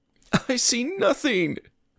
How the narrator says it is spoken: Luis said, sobbing

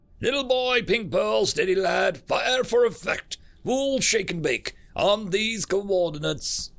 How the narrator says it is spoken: Trucker shouted over his open comlink

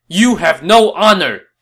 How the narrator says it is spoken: Zhang Fei shouted back

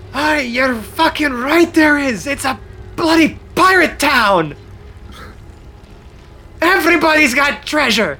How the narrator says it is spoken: a shout from somewhere saying

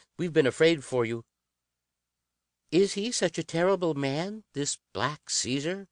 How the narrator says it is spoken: Nat sneered

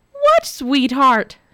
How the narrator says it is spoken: shrieked Nora

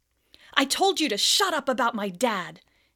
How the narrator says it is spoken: Harry yelled

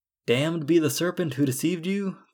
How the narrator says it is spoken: the Lord cried out

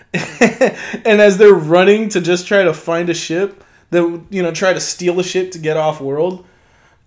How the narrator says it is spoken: Finn yells at Rey

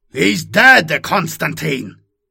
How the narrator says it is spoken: Russ roared

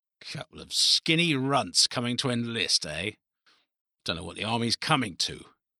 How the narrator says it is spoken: muttered

